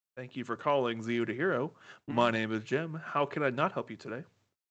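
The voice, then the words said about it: Customer service phone voice. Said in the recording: “customer service voice.”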